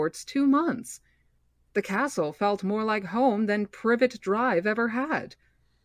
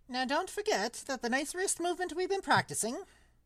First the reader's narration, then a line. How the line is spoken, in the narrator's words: squeaked Professor Flitwick